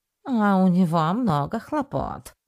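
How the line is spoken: Dry remark. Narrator (Russian): сухо заметил Спайк

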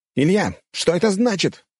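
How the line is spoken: Frightened, indignant shout. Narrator (Russian): выкрикнул Канарейкин с долей испуга и возмущения

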